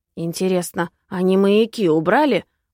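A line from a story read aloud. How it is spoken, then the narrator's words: Skeptical snort. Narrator (Russian): хмыкнул мистер Синеглазка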